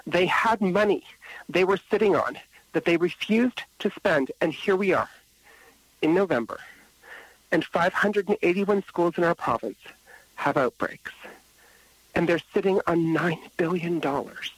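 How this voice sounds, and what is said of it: Upset, agitated voice. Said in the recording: “I get a little upset about it, as you could probably hear from my voice.”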